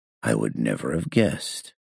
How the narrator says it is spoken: I muttered

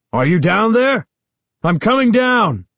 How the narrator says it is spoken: Uncle Ben shouted to us

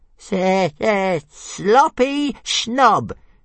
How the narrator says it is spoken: jeered Toothless

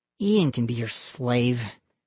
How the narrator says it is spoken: he muttered

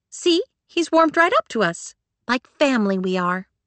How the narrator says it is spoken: chirped

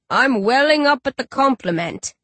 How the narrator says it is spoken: Rage chuckles

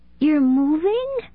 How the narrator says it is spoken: Megan asked, her voice filled with shock

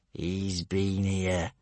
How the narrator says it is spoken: hissed Gumboyle

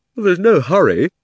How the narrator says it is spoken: said Diggory with a huge yawn

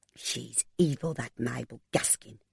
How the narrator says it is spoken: Mary Jones spat out

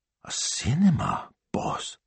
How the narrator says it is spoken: he whispered

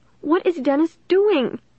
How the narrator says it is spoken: she asked me in a tiny, frightened voice

